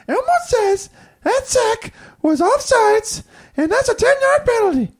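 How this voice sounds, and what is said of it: Poor Elmo impression. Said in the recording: “Your Elmo impersonation sucks.”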